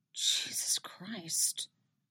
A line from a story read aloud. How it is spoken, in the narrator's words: Robin mutters, sounding just as horrified as Eddie is